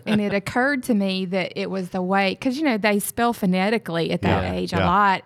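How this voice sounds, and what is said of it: Mississippi Southern accent. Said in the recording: “your accent, where are you from? ... I'm from Mississippi.”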